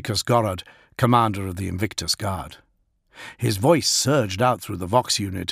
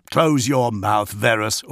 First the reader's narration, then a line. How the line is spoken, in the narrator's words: Augustine spat over his shoulder